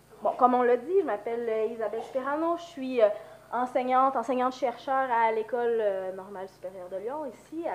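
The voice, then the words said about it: Québécois French accent, flu-affected voice. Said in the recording (French): “ma grippe, mon accent québécois”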